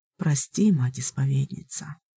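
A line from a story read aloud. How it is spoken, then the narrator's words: Soft-spoken witch. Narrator (Russian): мягко ответила ведьма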